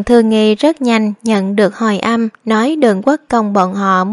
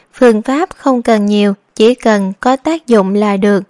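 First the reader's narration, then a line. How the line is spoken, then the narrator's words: Smiling. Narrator (Vietnamese): Đường Thư Kiệt mỉm cười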